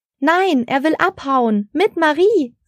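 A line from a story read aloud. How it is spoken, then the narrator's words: Shouting over chaos. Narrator (German): rief Frau Engel über das Chaos auf dem Baum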